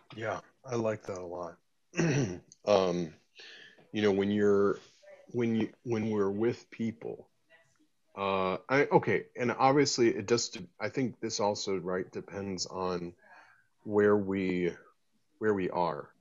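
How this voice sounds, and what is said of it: American accent. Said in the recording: “obviously you can tell by my accent. I'm you know, originally from the U.S.”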